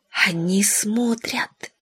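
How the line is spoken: Whispered. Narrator (Russian): сказала Павла шепотом

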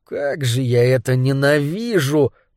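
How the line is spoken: Moan. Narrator (Russian): простонал Пит

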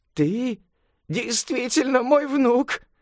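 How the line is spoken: Exclaiming. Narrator (Russian): воскликнула она

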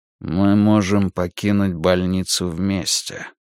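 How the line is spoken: Quiet. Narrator (Russian): тихо сказал он

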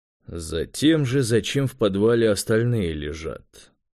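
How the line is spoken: Grumbling mutter. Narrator (Russian): буркнул Юра

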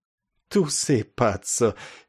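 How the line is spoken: Sweetly laughing speech. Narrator (Russian): мило рассмеявшись, проговорила она

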